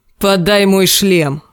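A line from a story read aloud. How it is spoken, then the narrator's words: Barked. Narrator (Russian): рявкнул Клиган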